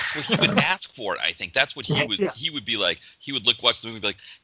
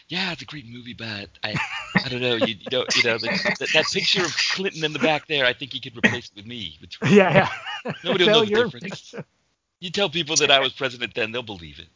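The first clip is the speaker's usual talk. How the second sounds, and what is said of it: Imitates another person's voice. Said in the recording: “I like your impression. It's good.”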